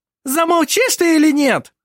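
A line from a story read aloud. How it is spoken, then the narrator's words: Hysterical woman exclaiming. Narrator (Russian): Истерично воскликнула его жена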